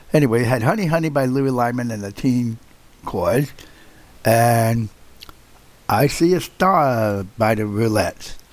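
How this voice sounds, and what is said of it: Scratchy voice. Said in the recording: “I don't know why my voice is so scratchy. Forgive me, folks. I'm fine, and I'm over my cold.”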